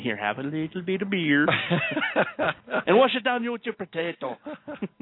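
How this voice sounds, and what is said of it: Put-on German accent. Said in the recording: “not bad considering that was Swedish ... Actually, that was supposed to be German.”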